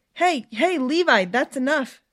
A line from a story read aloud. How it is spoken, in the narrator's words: Stephanie shouted